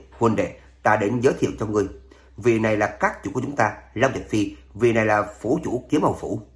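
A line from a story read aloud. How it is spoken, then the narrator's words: Hearty laughing introduction. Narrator (Vietnamese): Long Cửu cười lớn một tiếng, tiếp lấy giới thiệu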